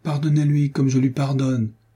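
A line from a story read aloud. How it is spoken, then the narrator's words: Exclamation. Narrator (French): s'écria Franz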